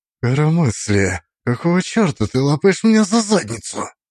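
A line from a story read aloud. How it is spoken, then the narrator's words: Icy indignant whisper. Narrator (Russian): Ее шепот был заряжен таким количеством сдерживаемого аристократического негодования, что, казалось, мог заморозить воздух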